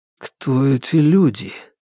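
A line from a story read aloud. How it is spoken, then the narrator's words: Quiet question. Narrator (Russian): тихо спросил Родригес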